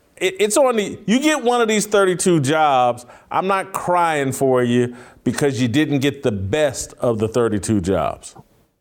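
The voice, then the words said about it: Imitates another person's voice. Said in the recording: “that was a terrible impersonation of me that you just did or a good impersonation of Uncle Jimmy impersonating me”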